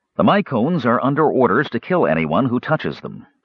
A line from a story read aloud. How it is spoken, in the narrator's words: Sturm said